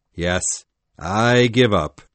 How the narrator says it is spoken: said Hook in a tired voice

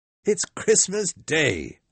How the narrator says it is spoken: Scrooge cried

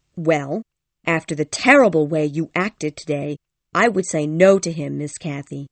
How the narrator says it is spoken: said Ellen firmly

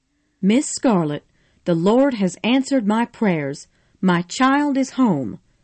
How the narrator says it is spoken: Mammy cried

